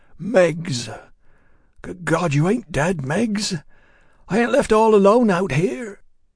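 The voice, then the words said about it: Cracked whisper. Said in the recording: “The voice was a cracked whisper.”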